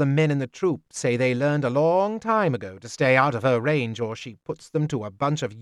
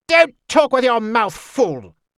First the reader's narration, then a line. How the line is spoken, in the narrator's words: she snapped